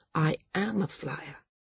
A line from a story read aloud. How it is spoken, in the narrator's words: Maris said quietly